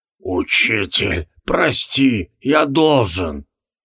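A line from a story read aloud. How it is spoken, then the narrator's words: Pleading hoarse rasp. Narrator (Russian): Тивилдорм умоляюще прохрипел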